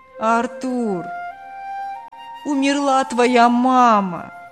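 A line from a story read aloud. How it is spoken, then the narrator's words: Feigned plaintive. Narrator (Russian): делано жалобно сообщил голос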